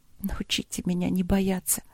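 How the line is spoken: Female whisper. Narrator (Russian): прошептала она

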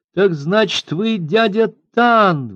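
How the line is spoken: Exclamation. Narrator (Russian): воскликнула она

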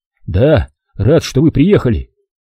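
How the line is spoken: Cut off mid-sentence. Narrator (Russian): оборвал на середине фразы

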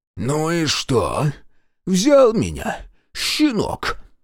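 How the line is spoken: Merchant hissing. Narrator (Russian): прошипел купец

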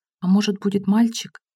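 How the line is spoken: Whispered question. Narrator (Russian): Гера спросил шепотом

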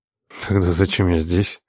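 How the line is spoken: Muttered through teeth to oneself. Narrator (Russian): процедил я, задавая вопрос скорее самому себе, а не батюшке

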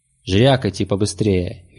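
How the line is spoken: Sharp command. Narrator (Russian): велел Мрак резко

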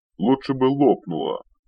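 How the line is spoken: Cooling-down mutter. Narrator (Russian): уже остывая, пробурчал Рикор

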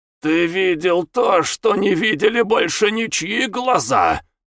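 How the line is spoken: Old man's bitter growl. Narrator (Russian): прорычал старик с горечью

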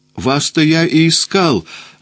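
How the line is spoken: Joyful exclamation. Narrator (Russian): воскликнул я радостно

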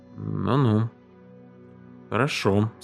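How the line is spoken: Uncertain. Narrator (Russian): сказал он неуверенно

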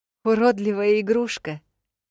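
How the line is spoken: Scornful snort. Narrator (Russian): фыркнула

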